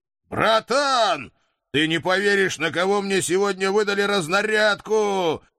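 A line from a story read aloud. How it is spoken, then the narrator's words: Happy shouting into phone. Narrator (Russian): Счастливо орал я в сотовой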